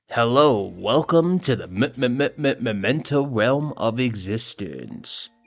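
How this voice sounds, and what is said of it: Radio DJ announcer voice. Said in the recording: “Working on my DJ voice”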